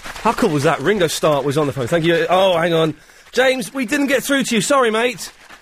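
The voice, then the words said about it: Breathless, out of breath. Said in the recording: “I'm so out of breath... I'm so out of breath”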